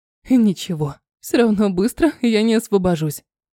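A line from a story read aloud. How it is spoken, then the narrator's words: Little sister laughing. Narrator (Russian): рассмеялась сестренка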